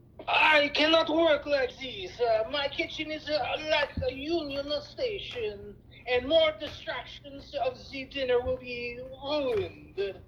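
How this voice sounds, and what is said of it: Put-on French accent. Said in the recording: “French accent.”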